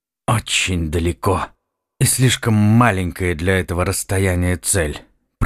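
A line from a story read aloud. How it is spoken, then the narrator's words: Through gritted teeth. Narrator (Russian): процедил сквозь зубы Вайс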